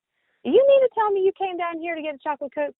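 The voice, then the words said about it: Sassy scolding tone sliding down in pitch. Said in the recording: “sassy and scolding somebody ... sliding down the tones ... you just go right down the tones”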